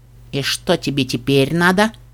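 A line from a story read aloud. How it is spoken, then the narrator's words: Gloomy questioning. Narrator (Russian): мрачно осведомился кот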